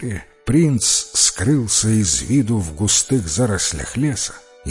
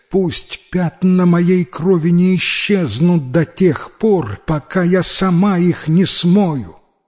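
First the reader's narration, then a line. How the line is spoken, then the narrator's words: Female shout after someone. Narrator (Russian): она крикнула ему вслед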